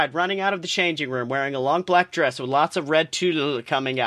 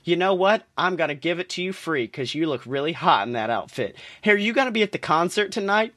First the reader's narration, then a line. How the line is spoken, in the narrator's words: asked